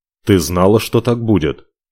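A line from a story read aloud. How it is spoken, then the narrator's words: Barked. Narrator (Russian): рявкнул он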